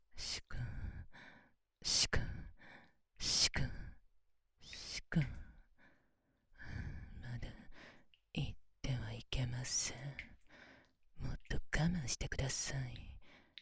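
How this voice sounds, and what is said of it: Whispering. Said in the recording (Japanese): “ささやきながら”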